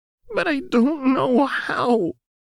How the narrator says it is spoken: Jinx sobbed

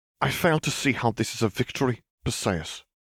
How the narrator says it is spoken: Garrett huffed irritably

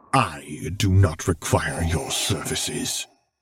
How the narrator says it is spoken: Vader muttered

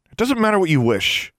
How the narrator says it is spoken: Alexandra snapped

